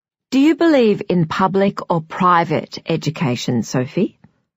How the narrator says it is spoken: asks Grace

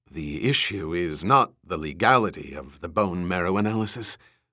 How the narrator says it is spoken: Eldon Rosen said huskily

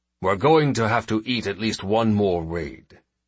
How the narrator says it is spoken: James said grimly

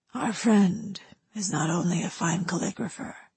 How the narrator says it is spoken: the man whispered

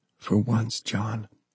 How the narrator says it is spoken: Michaela whispered

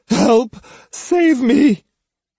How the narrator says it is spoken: Matahachi, beyond any pretense of dignity, cried

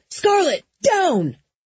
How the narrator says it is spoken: I did hear Jesse scream

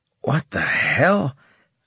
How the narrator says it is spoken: I croaked

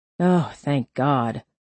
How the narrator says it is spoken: Hare sighed dramatically

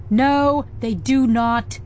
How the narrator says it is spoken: yelled Nib

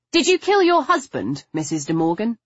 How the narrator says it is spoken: I asked, my voice sharper and louder than I intended

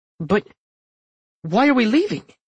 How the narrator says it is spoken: He stammered

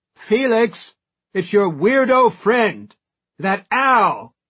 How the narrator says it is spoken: shouts

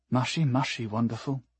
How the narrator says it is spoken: whispered

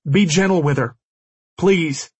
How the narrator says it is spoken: I yelled, unable to stop myself

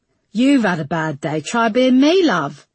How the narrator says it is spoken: snorted Ivy

